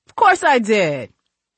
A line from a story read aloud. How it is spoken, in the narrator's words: he laughed